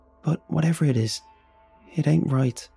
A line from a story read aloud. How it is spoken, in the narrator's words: said in a faraway voice